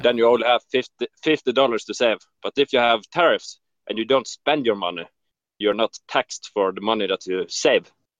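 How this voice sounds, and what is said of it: Norwegian accent, sounds Swedish. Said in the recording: “Are you Swedish? ... No, I'm Norwegian. ... your accent sounds a lot like the golden ones.”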